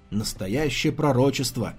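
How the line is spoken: Snorting scoff. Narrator (Russian): хмыкнул Фейлия

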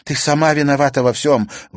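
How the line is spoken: Shouted. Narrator (Russian): выкрикнула Наталья

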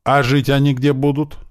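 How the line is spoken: Plain. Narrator (Russian): спросил Слива

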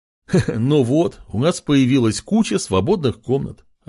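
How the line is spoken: Roaring laughter. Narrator (Russian): расхохотался король

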